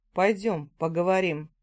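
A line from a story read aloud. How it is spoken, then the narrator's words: Chuckling. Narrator (Russian): Хохотнув, он повернулся к отцу и сказал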